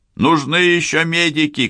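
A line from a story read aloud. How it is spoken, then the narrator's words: Man shouting. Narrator (Russian): кричал мужчина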